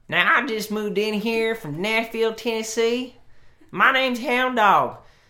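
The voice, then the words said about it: Put-on Southern US accent. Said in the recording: “he'd talk with a southern accent. That's my southern accent.”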